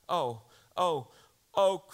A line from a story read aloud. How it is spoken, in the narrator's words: cried the two girls rushing back to the table